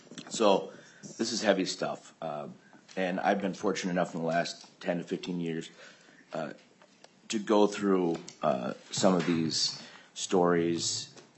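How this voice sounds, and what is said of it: Voice sounds strained or unwell. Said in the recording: “I apologize for my voice.”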